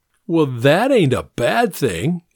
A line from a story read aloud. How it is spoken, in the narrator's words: Anthony said and laughed